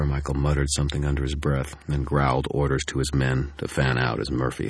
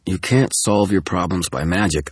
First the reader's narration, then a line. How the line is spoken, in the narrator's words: I snapped